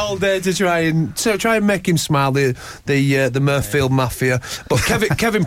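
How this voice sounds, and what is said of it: Usual voice. Nothing is said of it.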